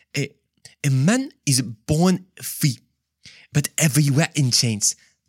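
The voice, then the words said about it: Attempted French accent, sounding African. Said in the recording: “in the French accent, of course ... that was not French at all. That was more like African.”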